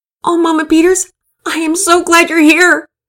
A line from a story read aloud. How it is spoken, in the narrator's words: Penelope shouted above the din of the station